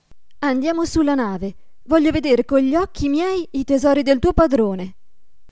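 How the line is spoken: Eager curious exclamation. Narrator (Italian): esclamò ella, più che mai curiosa

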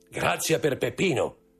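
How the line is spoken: Roused, shouting. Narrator (Italian): gridò Andrea, del tutto ridestato dallo stato di torpore

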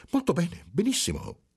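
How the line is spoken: Bewildered exclamation. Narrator (Italian): esclamò il segretario con aria sconcertata

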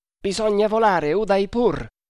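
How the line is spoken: Plain. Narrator (Italian): disse Tremal Naik

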